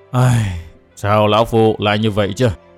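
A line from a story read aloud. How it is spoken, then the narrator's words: Anguished old man's sigh. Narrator (Vietnamese): Thiết Tán Tôn giả đầy vẻ đau khổ, buông tiếng thở dài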